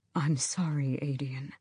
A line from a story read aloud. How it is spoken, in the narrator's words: Murtagh said softly